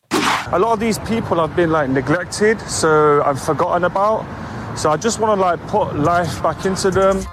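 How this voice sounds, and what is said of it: Speaks with a noticeable accent. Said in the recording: “despite his accent”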